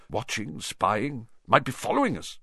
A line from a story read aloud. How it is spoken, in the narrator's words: muttered Uncle Vernon wildly